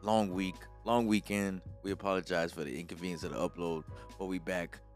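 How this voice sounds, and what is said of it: Tired-sounding voice. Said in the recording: “Both of us are tired, as you can tell by my voice.”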